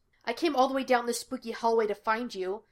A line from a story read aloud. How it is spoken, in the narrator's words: Gus snapped